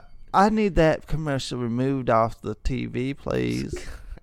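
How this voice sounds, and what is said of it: Karen voice sliding into hillbilly accent. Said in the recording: “You went to a hillbilly accent. ... oh, was that not a Karen accent? ... You started off well, and then you just went downhill.”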